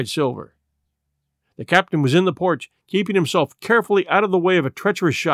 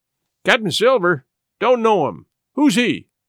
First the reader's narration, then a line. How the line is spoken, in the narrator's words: cried the captain